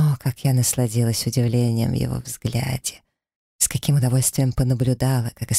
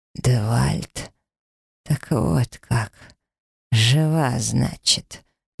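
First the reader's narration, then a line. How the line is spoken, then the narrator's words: Hoarse. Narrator (Russian): наконец сипло проговорил он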